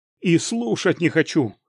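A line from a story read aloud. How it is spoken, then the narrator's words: Barked. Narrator (Russian): рявкнул я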